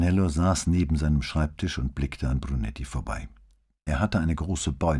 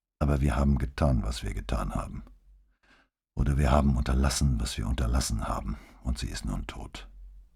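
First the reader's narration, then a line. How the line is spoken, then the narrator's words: Toneless voice. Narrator (German): sagte er mit tonloser Stimme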